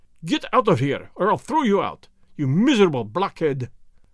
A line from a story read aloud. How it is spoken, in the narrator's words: roared Rokoff